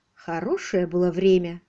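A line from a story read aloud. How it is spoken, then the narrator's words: Sighing. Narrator (Russian): вздохнул Джон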